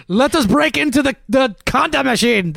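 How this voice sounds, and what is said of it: Put-on German accent. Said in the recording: “I guess that's a German accent. I can't tell.”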